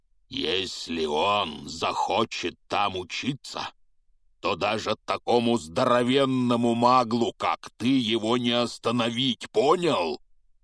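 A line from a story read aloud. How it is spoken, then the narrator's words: Growled. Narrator (Russian): прорычал Хагрид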